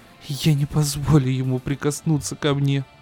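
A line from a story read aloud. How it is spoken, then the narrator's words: Sobbing. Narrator (Russian): Всхлипывает Мэйми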